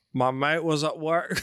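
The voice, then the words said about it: Attempted Australian accent drifting British. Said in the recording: “You got to do this one in your Australian ... it's getting British”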